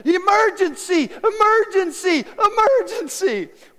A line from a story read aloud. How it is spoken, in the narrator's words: a little kid screaming